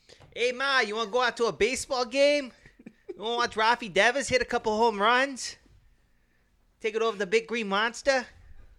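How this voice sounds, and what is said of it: Put-on Boston accent, not accurate. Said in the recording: “your Boston accent ... It's really not that accurate”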